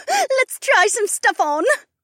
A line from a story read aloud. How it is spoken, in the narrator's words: Becca squealed